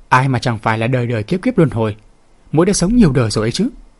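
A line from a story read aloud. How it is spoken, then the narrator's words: Laughing. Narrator (Vietnamese): Lê Tuyết bật cười, nói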